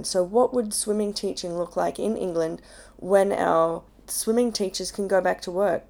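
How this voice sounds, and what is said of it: Croaky, unwarmed voice. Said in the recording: “I sound croaky because I have not done any vocal warm-ups”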